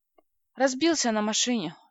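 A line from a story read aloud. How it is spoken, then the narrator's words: Sighing. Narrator (Russian): вздохнула я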